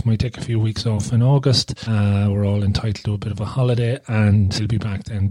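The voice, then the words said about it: Slightly hoarse voice. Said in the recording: “I'm a bit hoarse because I think I was talking a bit too much today.”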